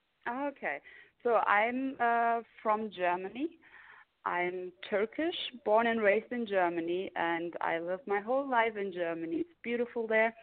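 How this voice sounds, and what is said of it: Foreign accent in English. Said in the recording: “you have an accent.”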